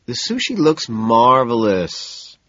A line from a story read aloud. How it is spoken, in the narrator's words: I tell her soothingly